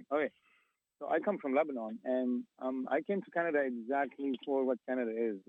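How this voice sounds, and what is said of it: Non-native English accent. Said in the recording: “you can tell from my accent, I'm not a Canadian-born”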